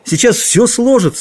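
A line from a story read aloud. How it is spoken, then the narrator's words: Exclamation. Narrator (Russian): воскликнул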